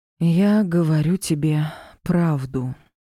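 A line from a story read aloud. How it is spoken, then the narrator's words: Slow sighing answer. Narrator (Russian): ответила, медленно вздохнув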